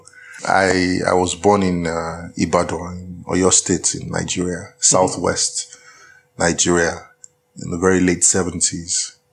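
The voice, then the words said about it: Nigerian accent. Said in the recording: “My accent is distinctly Nigerian”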